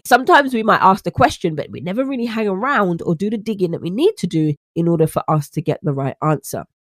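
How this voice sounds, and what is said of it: British accent. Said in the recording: “you like my accent, as many of my American friends do ... vanutritioncoaching.co.uk”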